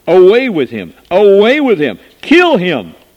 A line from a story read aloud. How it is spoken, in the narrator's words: they cried out